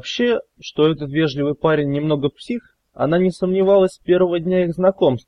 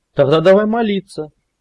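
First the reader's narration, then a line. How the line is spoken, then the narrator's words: Fervent exclamation. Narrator (Russian): с жаром воскликнул Велес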